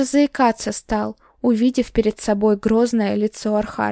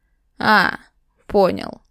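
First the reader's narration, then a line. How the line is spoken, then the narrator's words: Amused grunt. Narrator (Russian): хмыкнул мой сосед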